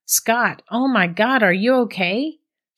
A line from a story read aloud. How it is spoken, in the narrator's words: she yelled